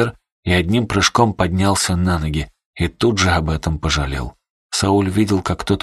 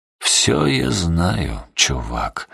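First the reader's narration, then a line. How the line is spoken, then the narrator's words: Quiet mutter. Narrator (Russian): тихо пробормотал он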